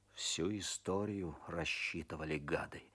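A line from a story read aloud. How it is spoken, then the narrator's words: Muttered through teeth. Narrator (Russian): бормочет сквозь зубы Козлов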